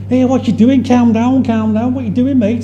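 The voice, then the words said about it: Broad Scouse accent. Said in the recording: “in his broadest Scouse accent”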